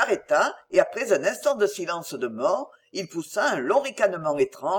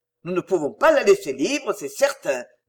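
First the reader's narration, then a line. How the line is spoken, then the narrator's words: Grumbled to himself. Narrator (French): grommela-t-il à part lui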